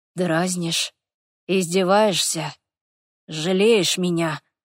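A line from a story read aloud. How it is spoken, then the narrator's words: Muffled voice. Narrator (Russian): глухо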